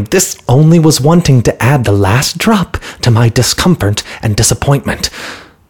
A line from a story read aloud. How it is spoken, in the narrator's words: The noise so irritated the merchant that he quite lost his temper and exclaimed